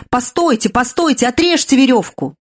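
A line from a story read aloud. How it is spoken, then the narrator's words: Shout. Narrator (Russian): Кто-то вздумал закричать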